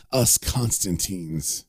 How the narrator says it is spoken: he pauses and he begins to chuckle, saying

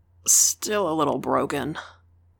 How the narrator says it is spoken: groaned

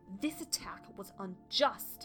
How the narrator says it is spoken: Heatherstar spat

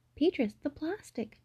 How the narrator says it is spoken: Novi cried

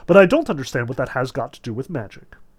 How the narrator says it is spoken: Arkady Apollonovich's wife declared very haughtily

